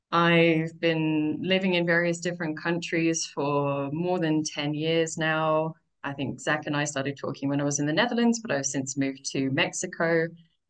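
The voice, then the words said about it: British accent, somewhat faded. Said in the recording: “I'm originally from the UK, although I've heard that my accent is starting to get butchered by too much time abroad.”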